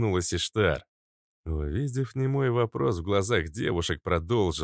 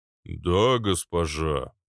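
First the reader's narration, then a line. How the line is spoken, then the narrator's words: Booming giant. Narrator (Russian): прогудел гигант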